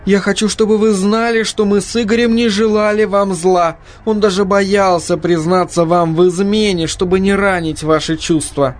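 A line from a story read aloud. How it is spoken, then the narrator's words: Sobbing. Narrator (Russian): всхлипывая, продолжала она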